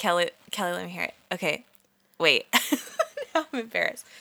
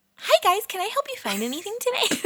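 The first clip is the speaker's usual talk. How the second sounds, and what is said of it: Exaggerated high customer-service voice. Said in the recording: “customer service voice ... No, that's too high. That's me over-exaggerating.”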